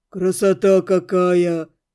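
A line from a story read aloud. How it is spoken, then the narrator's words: Breathed out in awe. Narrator (Russian): выдохнул кто-то из парней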